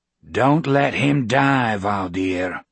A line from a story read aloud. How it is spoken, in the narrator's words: Josh growled from America